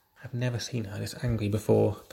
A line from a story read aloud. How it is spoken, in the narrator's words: Fencer whispered